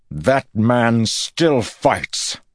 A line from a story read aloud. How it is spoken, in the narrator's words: Rand shouted